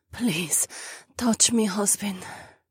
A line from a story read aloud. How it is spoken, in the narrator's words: she rasped